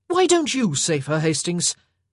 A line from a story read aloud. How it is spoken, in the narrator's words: Benedict exclaimed